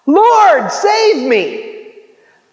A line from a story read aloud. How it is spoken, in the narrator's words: he cried out